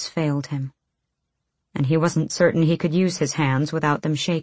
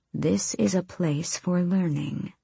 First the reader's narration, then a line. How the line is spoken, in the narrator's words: Hafiza murmured